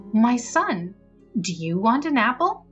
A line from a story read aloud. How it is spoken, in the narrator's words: stepmother said to him kindly